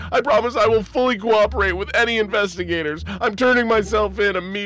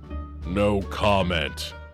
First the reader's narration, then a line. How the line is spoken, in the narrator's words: growled Alkahest